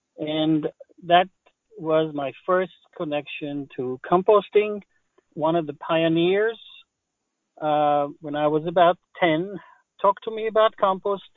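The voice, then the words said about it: Slight Israeli accent. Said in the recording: “I have a little accent. ... I was born in Israel.”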